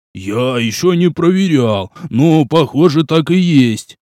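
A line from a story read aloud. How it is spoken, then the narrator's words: Circus performer grumbling under breath. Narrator (Russian): проворчал циркач под нос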